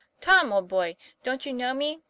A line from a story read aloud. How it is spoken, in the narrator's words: cried Harry, unable to restrain himself